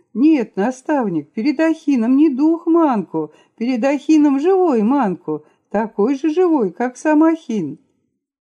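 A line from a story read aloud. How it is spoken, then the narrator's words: Exclaiming in sudden realization. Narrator (Russian): Наконец, догадавшись, Манку воскликнул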